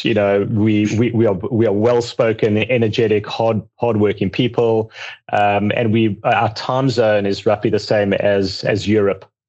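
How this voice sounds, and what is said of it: South African accent. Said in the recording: “I hope you like my accent.”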